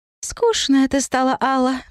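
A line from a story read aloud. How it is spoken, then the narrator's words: Fairy sighing. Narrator (Russian): вздохнула фея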